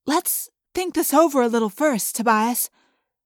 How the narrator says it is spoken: Cassie pleaded

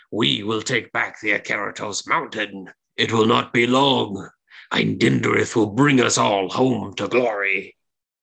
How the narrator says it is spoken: She cackles with glee and she says

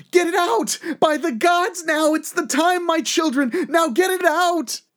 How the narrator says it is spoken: Frigga screaming

